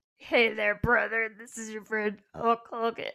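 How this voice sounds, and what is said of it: Imitates another person's voice. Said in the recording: “your Hulk Hogan impression”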